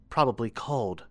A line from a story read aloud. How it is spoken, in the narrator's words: she muttered